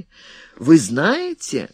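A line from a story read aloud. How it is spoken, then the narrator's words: Joyful. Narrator (Russian): радостно сказал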